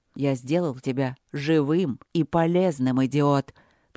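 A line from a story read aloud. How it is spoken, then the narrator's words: Exasperated, through gritted teeth. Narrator (Russian): процедил Дарманшир, чувствуя себя дедом, думающим, как вдолбить в тупую голову старшего внука немного ума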